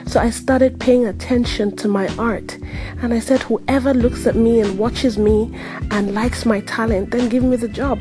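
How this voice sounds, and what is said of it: African-accented English. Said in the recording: “my accent ... I'm African, I can't change it. I can't change my accent”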